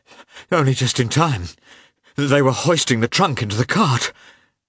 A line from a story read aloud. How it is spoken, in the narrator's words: he gasped